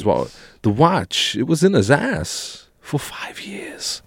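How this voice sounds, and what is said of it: Christopher Walken impression. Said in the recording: “It is pretty good impression ... It's consistent ... Christopher Walken's voice”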